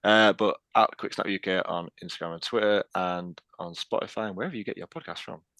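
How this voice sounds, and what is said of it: Posh put-on phone voice. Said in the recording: “That was very official. ... that's my posh phone voice. ... What, Yorkshire and posh?”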